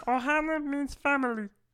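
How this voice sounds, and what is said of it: Mediocre Stitch impression. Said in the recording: “I actually used to do an impression of Lilo... I mean, yeah, Stitch... Not horrible... That's not bad. It's not terrible... No, it's not good.”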